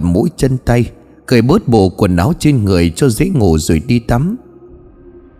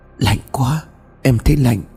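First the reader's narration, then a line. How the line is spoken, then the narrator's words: Shivering trembling voice. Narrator (Vietnamese): Hoa khẽ run lên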